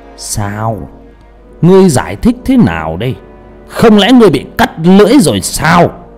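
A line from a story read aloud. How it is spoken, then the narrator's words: Old man's hissing voice. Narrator (Vietnamese): Tiếng rít của ông già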